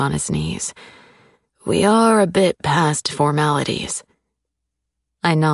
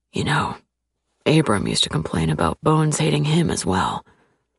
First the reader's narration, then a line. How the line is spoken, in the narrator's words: He says in a low voice